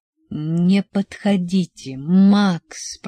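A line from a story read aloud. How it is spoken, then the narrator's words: Moaned. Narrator (Russian): простонал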